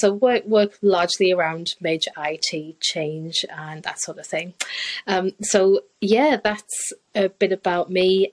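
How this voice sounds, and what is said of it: Mixed northeast English accent. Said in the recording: “originally hail from the northeast. I've spent a bit of time overseas, so do have a bit of a weird accent.”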